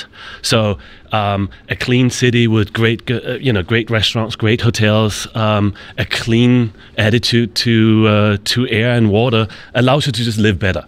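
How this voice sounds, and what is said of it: Danish accent. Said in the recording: “you have a Danish accent”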